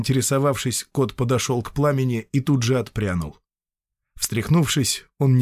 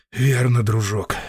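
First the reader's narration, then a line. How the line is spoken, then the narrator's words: Sigh. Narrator (Russian): вздохнул Шептун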